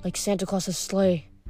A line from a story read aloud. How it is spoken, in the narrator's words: I murmured, still dazed with plant pain